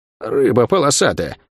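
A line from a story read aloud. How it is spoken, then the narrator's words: Surprised muttering. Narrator (Russian): с удивлением пробормотала она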